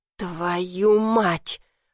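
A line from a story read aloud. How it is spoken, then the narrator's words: Furious exhale. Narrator (Russian): Ром выдохнул, глядя на меня с яростью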